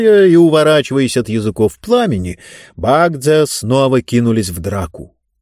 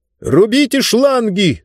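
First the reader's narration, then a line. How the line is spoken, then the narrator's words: Shouted again. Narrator (Russian): снова крикнул Зонталомайстер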